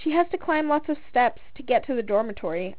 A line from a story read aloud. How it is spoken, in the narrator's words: I said, chuckling